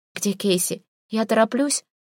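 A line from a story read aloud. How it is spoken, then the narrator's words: Slurred exhausted mumble. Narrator (Russian): Невнятно бормочу, неимоверная усталость, язык едва движется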